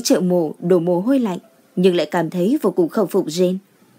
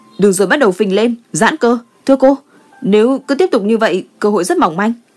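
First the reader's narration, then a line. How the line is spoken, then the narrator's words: Raised voice. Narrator (Vietnamese): Warden cao giọng nói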